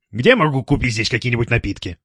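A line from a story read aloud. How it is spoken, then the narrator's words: Normal voice question. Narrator (Russian): уже нормальным голосом спросил Стас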